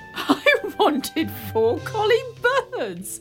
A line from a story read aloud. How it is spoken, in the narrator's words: laughed the king